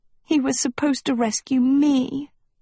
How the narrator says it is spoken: Sophie whimpered

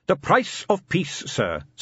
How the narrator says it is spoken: said Captain Carrot earnestly

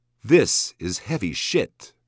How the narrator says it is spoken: Kevin said

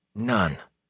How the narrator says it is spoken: Rand sighed

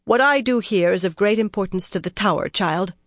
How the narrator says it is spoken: she said coldly

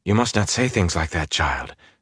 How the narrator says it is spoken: Saralyn said soothingly

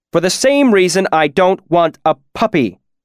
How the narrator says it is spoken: Illodin shouted

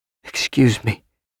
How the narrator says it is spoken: said in a choked voice

